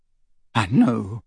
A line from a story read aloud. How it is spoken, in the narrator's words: said Ginny, and her voice broke